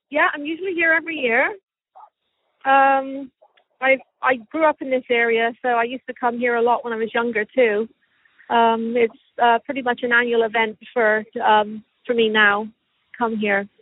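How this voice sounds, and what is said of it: English accent with Canadian traces. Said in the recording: “your English accent cuts in and out ... a little bit of Canadian comes through”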